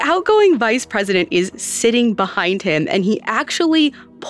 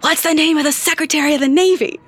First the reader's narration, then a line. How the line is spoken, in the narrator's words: loudly whispers